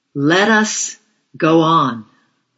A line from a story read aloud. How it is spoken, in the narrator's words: called out slowly